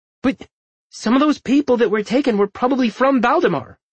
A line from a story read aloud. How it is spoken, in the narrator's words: Perry exclaimed in dismay